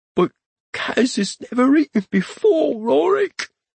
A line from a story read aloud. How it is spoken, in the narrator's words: he pleaded in a near whisper